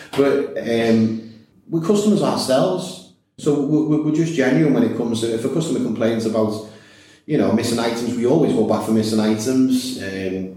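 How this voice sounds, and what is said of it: Scouse (Liverpool) accent. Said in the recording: “Maybe it's the Scouse accent, a little bit infectious.”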